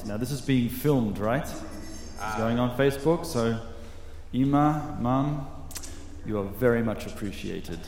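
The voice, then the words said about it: Australian accent. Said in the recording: “you might have detected from my accent that I don't come from around here ... What is a good Australian boy doing in Jerusalem”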